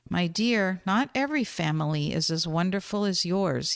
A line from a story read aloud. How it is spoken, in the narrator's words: he replied